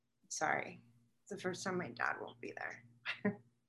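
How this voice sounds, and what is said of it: Emotional, choked-up voice. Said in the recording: “I'm getting emotional”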